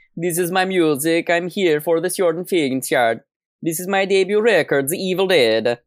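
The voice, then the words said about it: Put-on Scandinavian accent. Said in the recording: “doing a fucking Scandinavian accent”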